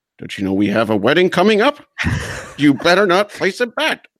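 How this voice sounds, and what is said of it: Imitates another person's voice. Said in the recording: “That's a really good impression of her. That's for those that don't know, that's exactly what her voice sounds like, too.”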